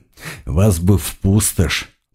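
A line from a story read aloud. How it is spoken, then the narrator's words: Barely audible mutter. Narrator (Russian): пробормотал еле слышно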